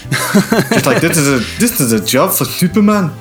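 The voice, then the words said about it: Bad put-on Scottish accent. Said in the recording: “That's a bad Scottish accent.”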